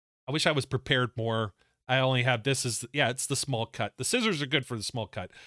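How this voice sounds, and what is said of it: Usual voice. Nothing is said of it.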